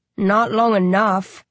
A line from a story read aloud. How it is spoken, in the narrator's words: I grunt